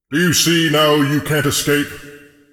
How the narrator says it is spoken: The voice boomed across

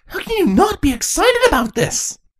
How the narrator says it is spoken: Princess Chrysalis exclaimed

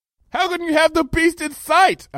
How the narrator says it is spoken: I yelled

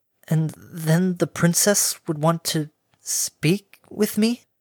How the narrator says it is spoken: Harmony stammered

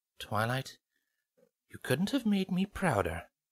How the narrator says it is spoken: Celestia half-whispered

